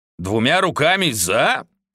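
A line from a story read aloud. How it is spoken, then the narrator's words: Growl. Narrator (Russian): прорычал Тек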